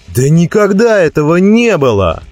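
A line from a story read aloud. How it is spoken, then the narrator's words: Yelling. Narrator (Russian): вопил один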